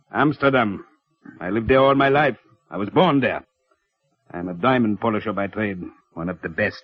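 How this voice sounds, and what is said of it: Unfamiliar foreign accent. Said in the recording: “You speak with a foreign accent, the kind I never heard before.”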